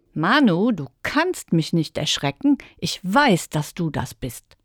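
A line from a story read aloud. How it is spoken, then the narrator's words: Laughing. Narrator (German): lachte Sam im Dunkeln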